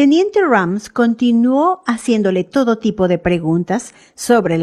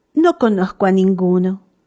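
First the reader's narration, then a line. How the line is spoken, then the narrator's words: Plain. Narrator (Spanish): respondió ella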